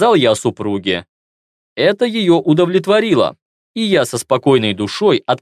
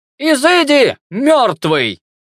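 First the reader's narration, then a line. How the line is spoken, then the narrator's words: Elderly woman shouting. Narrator (Russian): кричала пожилая преподавательница магии смерти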